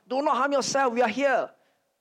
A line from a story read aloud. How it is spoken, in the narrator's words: he immediately called out